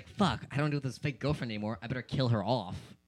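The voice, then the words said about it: Imitates another person's voice, poorly. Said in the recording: “that's not a good impression of him”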